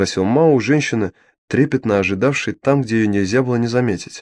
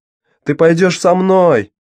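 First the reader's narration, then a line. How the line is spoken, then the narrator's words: Shouted. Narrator (Russian): крикнула Дафна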